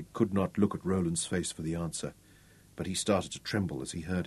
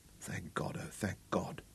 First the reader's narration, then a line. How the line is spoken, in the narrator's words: Craig whispered